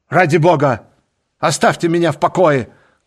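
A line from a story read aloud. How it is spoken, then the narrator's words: Shout. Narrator (Russian): крикнул Дриан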